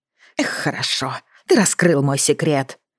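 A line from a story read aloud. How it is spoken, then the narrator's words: Hissing. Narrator (Russian): прошипел он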